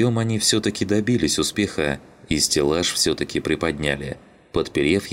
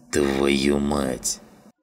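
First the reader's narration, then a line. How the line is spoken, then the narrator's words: Grumbling. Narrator (Russian): проворчал Жиган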